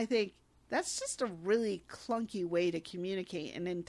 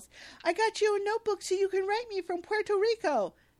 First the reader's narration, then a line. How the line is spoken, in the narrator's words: Langston, who happily yells